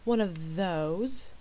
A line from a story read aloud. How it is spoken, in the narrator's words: Shepherd mimicked a lazy drawl